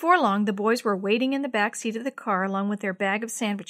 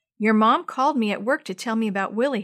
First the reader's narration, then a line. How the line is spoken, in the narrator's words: said